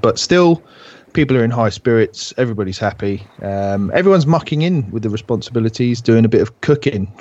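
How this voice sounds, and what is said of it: Slightly ill, under-the-weather voice. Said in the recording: “I'm feeling a little bit under the weather this week, as you might be able to tell from my voice.”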